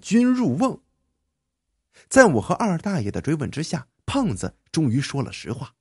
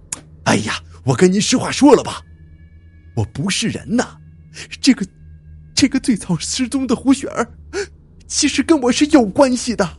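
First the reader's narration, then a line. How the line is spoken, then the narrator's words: Steeling himself. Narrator (Chinese): 胖子一咬牙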